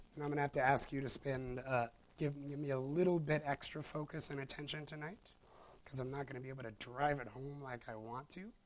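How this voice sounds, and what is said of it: Weak, strained voice. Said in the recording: “my voice is very weak tonight, so you're going to have to notch me up a few notches”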